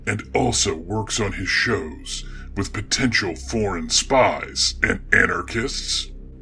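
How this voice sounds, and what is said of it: Creepy, scary character voice. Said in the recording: “creepy voice guy ... I'm a scary voice that is meant to frighten people”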